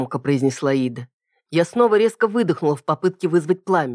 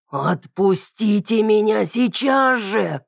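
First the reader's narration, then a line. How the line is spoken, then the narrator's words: Strained growl, thick tongue. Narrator (Russian): с трудом прорычала я, ворочая огромным острым языком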